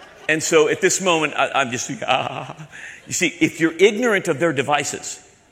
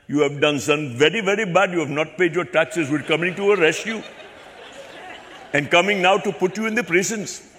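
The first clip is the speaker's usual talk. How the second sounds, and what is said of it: Imitated Indian English accent. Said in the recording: “my Indian accent, if you're Indian, please forgive me. I have an Indian accent that I learned in South Africa from Indians that live in South Africa”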